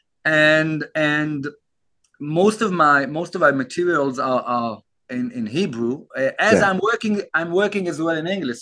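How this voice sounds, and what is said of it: Israeli-accented English. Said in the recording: “I guess you heard a bit about my accent... I'm not local English. So I live in Israel”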